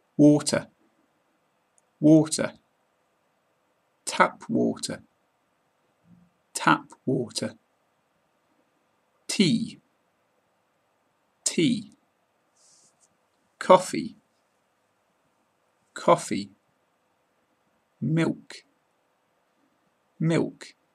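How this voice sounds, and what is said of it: British English accent. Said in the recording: “This is a British accent podcast ... how to pronounce common drinks in English in a British accent”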